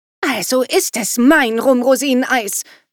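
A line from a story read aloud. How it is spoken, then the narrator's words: Daughter hissing angrily. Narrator (German): zischte seine Tochter ärgerlich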